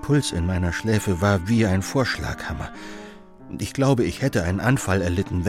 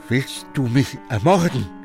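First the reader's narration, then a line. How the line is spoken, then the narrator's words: Stammering. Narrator (German): stammelt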